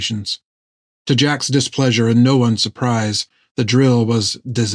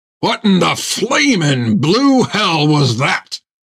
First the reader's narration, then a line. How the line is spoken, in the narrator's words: shouted Jack